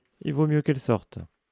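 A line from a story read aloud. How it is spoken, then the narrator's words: Cheerful. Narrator (French): dit Hagrid d'un ton joyeux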